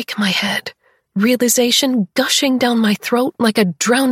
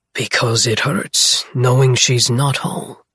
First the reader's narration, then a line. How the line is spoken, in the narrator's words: he rasps